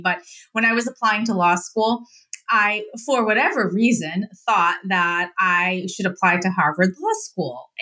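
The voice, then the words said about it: Boston accent. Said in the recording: “I'm from Mass, so I have the, the Boston accent”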